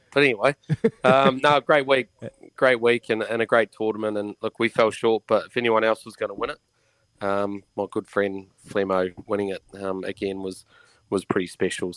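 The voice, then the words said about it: Croaky, hoarse voice. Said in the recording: “Is that voice a bit croaky? ... Is that a bit of a croaky voice, is it? ... that might have been a big Cuban cigar at the end of the tournament ... Not a great radio voice”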